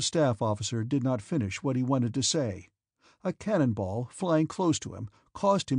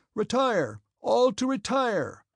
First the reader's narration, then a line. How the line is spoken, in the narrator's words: he shouted from a distance